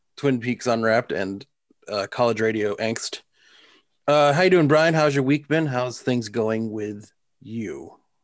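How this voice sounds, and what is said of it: Put-on radio announcer voice. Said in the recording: “You're using your radio voice.”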